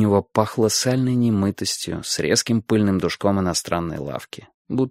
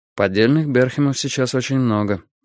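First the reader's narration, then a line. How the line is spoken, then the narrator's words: Calm. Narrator (Russian): спокойно заметил я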